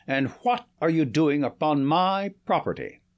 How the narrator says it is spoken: he thundered

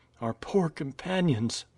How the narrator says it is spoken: murmured Nadia

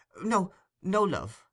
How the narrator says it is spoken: interposed the lady hastily

